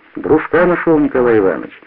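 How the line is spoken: Joyful. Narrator (Russian): радостно сказал Стародонский

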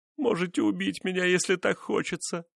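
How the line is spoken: Moan. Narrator (Russian): простонала она

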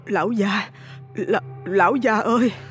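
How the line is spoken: Trembling call. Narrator (Vietnamese): Bà Bích Liên cố gắng lấy lại tinh thần, run run giọng gọi ông

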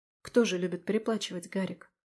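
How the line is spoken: Sighed. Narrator (Russian): вздохнула я

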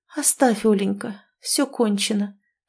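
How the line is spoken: Faint moan. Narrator (Russian): простонала едва слышно Ирина

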